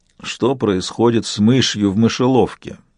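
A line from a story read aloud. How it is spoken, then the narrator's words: Grumbled. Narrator (Russian): проворчал профессор Марлоу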